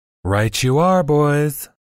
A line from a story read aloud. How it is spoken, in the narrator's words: lisped the thin, gaunt man